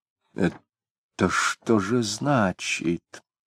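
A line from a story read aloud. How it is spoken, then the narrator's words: Old man's quiet question. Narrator (Russian): тихонько спросил серый старик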